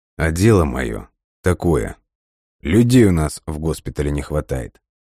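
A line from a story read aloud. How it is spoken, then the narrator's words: Cool reply. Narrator (Russian): прохладным тоном ответил военный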